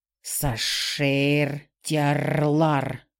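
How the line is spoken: Near hiss. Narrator (Russian): почти прошипел Феликс

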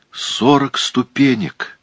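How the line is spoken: Groan. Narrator (Russian): простонал

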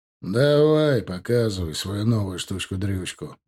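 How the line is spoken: Grumbling. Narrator (Russian): проворчал он

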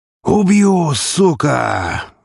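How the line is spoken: Roar. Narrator (Russian): взревел он

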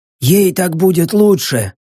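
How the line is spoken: Wheezing, breathless repetition. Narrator (Russian): Уже, наверное, в десятый раз повторил Баск, с хрипом вгоняя в себя воздух

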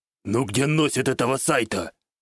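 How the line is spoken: Displeased muttered grunt. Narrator (Russian): Недовольно хмыкнул под нос хромой тигр

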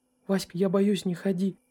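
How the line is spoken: Frightened whisper. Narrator (Russian): прошептала Нюша

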